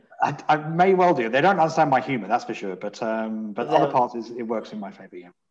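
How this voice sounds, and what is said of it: English accent. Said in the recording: “my accent ... my very regal and royal English accent ... an Englishman”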